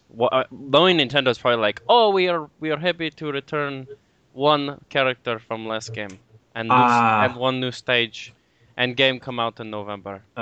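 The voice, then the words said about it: Mock Japanese accent drifting Eastern European. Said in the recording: “your Japanese accent slowly progress into a bad Eastern European accent? ... why is he making the Japanese Russian? ... why does he sound like Borat?”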